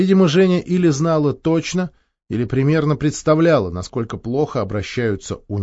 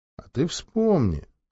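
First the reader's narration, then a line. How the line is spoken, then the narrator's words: Tender speech. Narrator (Russian): ласково проговорил Геннадий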